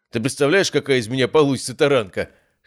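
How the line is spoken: Chuckling. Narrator (Russian): хохотнул Матвей

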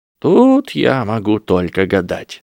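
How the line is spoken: Sighing. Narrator (Russian): вздохнул Дамблдор

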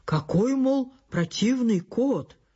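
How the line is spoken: Exclaimed. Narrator (Russian): хозяин воскликнул

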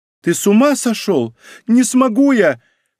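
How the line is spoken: Sharp cry. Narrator (Russian): вскрикнула Лиза

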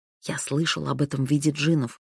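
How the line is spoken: Young man whispering. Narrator (Russian): шепотом произнес юноша

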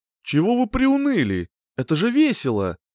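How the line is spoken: Cheerful. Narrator (Russian): радостно произнес Седрик

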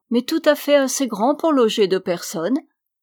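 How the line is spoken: Cheerful reply. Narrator (French): répondit-elle gaiement

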